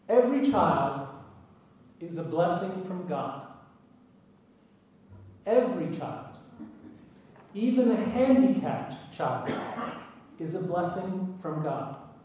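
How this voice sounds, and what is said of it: Very American accent. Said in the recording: “I speak with a very American accent”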